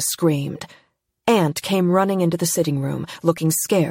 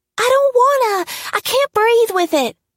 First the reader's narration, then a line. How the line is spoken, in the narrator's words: Aunt whined